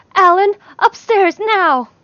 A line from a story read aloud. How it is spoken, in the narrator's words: Lee made a small gasping noise and yelled